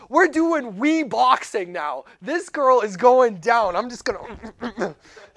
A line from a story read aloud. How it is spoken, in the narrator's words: yelled